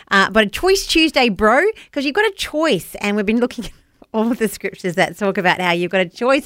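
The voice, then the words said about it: New Zealand accent. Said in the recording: “a bit of a Kiwi twang to it. Sorry, that's my accent.”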